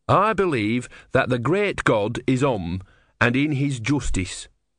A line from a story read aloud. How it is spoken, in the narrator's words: said Brutha